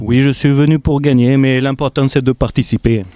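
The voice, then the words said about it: Put-on regional French accent. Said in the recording (French): “t'as tenté un autre truc en termes d'accent ... Dimitri Payet, t'avais vraiment cet accent ... Stéphanois introverti ... un picard polygame”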